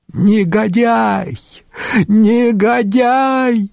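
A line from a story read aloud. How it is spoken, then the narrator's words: Increasingly loud shouting. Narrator (Russian): все громче кричала Гризельда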